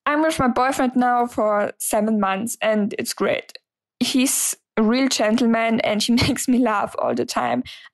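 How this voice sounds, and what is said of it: German accent in English. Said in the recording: “I'm from Germany, so sorry for the accent.”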